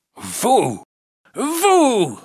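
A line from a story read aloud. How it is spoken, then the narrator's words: Exclaimed. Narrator (French): s'écrie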